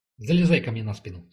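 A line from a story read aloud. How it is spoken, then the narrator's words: Plain. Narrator (Russian): сказал ей бык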